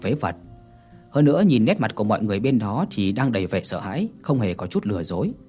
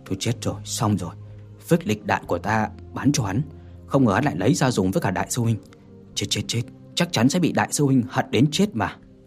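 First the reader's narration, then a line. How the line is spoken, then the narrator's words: Limp, collapsed mumbling. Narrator (Vietnamese): thân thể hắn mềm nhũn, tê liệt ngã ngồi trên mặt đất lẩm bẩm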